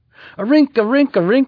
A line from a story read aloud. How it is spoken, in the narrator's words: yelled Sierra